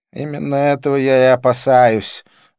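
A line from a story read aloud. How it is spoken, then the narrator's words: Sighed. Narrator (Russian): вздохнул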